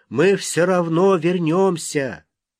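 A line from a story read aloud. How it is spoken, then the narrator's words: Shrieking. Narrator (Russian): Третья вопит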